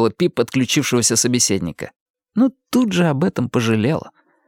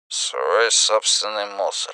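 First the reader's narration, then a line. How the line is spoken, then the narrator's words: Indistinct mutter. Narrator (Russian): Мистер Буковаж пробормотал в ответ что-то невнятное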